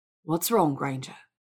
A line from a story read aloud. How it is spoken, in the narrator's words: Malfoy asked